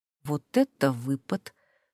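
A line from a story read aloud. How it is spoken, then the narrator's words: Quiet, low voice. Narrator (Russian): вполголоса проговорила Матильда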